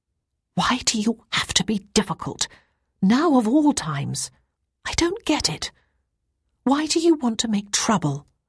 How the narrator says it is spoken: Ruth said in a whisper

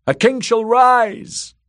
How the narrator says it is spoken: drowned men cried

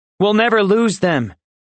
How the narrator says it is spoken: Ozzy said loudly

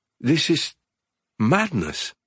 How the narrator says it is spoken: Ambra stammered

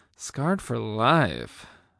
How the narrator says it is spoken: I breathed

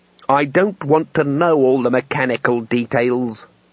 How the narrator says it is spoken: growled Trumon

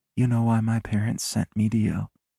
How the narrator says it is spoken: She asks, her voice barely a whisper

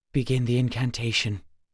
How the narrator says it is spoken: Gar whispered

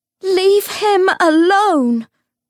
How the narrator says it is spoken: Cordelia shouted

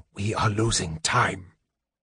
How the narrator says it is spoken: the mage whispered

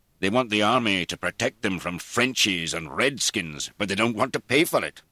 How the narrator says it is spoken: Sir George said indignantly

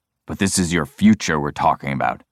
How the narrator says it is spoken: he finishes gruffly

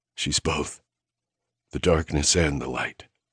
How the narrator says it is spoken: I rasped

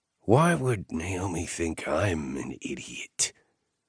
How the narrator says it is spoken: he asked wearily

